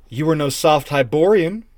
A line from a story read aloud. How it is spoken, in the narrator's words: she exclaimed